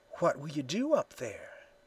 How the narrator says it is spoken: whispered

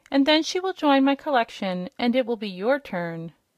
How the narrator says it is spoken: said the King cheerfully

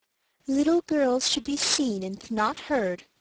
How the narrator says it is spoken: said her mother gently

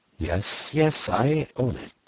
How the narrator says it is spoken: she cried under her breath, with a drowsy fervor of manner and tone which was quite peculiar to her

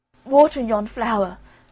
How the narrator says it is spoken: cried the boy in despair

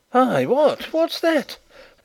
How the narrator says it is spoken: exclaimed a voice from the other side of the hall

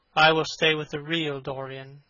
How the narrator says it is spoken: he said sadly

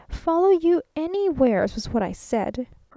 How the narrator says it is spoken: persisted the traveling salesman, almost irritably

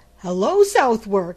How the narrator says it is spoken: he cried

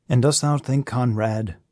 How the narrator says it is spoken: said the old man, in his gentle, patient voice

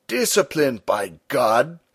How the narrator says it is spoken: Stumm cried

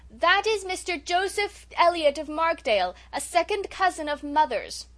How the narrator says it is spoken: Cecily, shouting

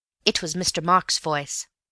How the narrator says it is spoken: said Elsie firmly

